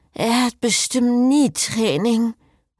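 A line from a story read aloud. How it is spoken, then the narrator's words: Mumbling. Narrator (German): nuschelte Cecile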